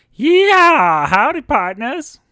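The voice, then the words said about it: Cartoon cowboy character voice. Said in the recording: “my best Woody impression ... It sounded like a cross between Woody and Forky ... I'm not the greatest at impressions”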